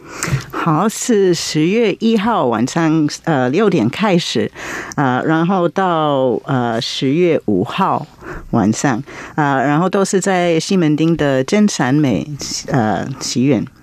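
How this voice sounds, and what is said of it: American foreign accent in Mandarin. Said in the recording (Chinese): “听到老师有外国口音 ... 老师，您是外国人呢？ ... 来自美国”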